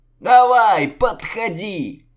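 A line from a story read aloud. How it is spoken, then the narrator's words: Crowd yelling and hooting. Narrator (Russian): Ватага завопила, заулюлюкала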